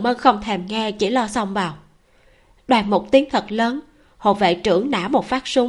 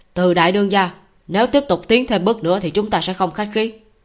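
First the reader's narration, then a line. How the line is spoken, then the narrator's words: Cold barked command. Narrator (Vietnamese): Hộ vệ trưởng A Thanh lạnh giọng quát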